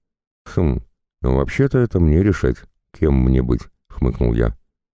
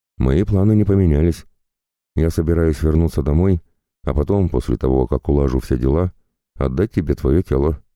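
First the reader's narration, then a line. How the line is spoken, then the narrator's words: Calm reply. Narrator (Russian): спокойно ответил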